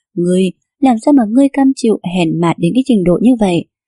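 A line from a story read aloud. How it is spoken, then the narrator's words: Angry scolding. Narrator (Vietnamese): Tiêu Thiệt Giác tức giận đến đưa tay chỉ về phía nàng mà mắng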